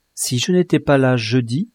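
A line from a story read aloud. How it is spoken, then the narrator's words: Plain. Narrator (French): a-t-elle dit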